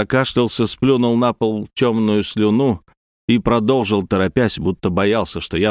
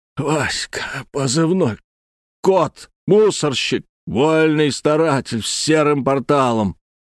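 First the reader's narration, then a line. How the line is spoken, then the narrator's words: Hoarse rasp. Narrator (Russian): Гризли прохрипел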